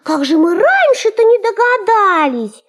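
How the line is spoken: Exclaiming in chorus. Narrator (Russian): все хором воскликнули

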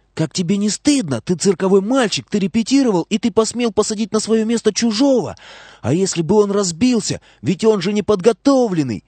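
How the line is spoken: Shouted whisper. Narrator (Russian): закричала шепотом

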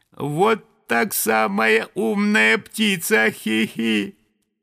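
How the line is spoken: Thin little voice. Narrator (Russian): тоненький голосок сказал

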